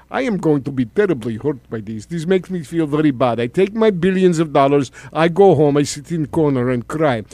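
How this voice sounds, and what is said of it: Bad Russian accent, sounds congested. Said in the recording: “with a really bad accent. It sounds like you have a cold”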